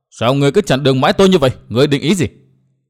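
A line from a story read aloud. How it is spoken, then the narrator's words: Furious roar. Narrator (Vietnamese): chàng bỗng nổi giận đến cực độ, chàng gầm to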